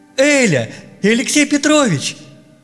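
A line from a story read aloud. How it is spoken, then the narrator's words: Joyful shout. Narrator (Russian): радостно закричал Петя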